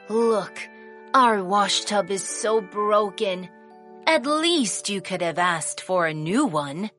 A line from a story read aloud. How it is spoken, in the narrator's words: The old woman sighed and said